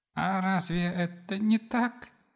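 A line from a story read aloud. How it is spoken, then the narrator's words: Moan. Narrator (Russian): простонал себя Режу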